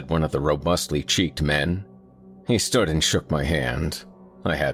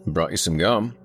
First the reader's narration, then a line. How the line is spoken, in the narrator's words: I said